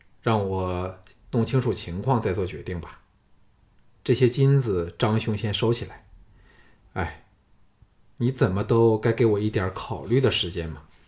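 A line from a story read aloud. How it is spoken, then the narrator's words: Flat, indifferent. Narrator (Chinese): 项少龙淡淡的说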